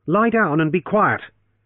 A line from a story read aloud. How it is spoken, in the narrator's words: he repeated harshly